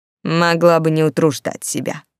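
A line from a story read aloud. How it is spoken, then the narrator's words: Grumbling. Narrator (Russian): проворчал он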